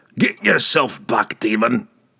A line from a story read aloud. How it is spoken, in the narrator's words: he growled